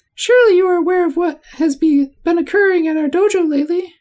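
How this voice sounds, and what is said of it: Imitates another person's voice. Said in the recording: “my impression of ... Christopher Lambert from Mortal Kombat as Raiden”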